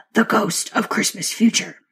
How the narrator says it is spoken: dropping his voice on the next words

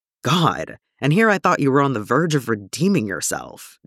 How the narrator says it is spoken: Jim scoffs

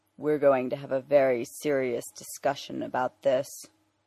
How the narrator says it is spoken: he says, his voice lowered into Batman's growl

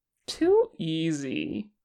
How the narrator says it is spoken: Porsche mocked

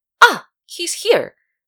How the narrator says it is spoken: Myung-jun suddenly exclaimed

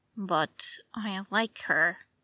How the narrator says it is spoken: Bruce said

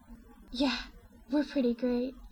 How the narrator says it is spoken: she pants

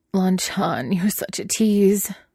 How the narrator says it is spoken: the duplicate moaned

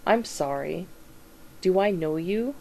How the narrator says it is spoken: Sam says as evenly as he can, even though he can already feel the effects of the whiskey

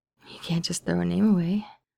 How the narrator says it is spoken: Steve says weakly

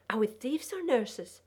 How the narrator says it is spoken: Margot spluttered

